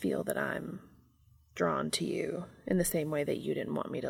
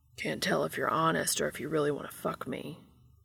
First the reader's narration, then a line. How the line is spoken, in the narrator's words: he rumbles